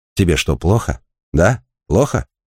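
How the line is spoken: Uncertain mumbling. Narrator (Russian): Неуверенно бормотал Найджел

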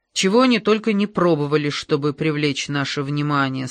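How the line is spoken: Plain. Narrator (Russian): сказал Ангела

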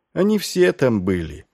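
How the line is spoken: Sighing. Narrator (Russian): вздохнул Маркоу

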